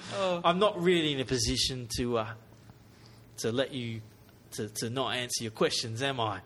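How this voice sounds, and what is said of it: Put-on British English accent. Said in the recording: “Why am I speaking British, too? ... No, everyone here seems to be English. ... Speaking British.”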